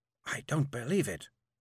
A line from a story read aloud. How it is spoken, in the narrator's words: said softly